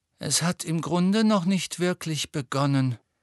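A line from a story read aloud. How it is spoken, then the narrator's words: Sighed gloomily. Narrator (German): seufzte Hermine düster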